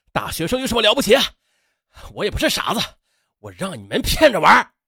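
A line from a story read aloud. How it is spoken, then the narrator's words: Angry shout. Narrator (Chinese): 秦兵气愤的在他们背后喊道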